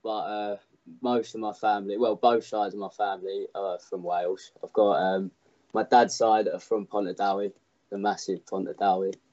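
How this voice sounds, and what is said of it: Cockney accent. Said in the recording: “your voice is not Welsh ... Got my Cockney accent”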